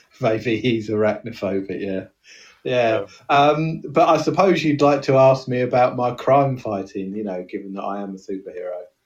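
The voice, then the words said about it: Somerset English accent. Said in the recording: “I'm from Somerset. ... As you can tell by the accent.”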